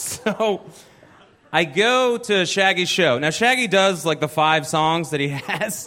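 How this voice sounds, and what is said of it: Usual voice. Nothing is said of it.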